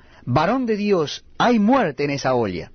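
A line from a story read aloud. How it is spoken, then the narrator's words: Men crying out. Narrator (Spanish): gritaron diciendo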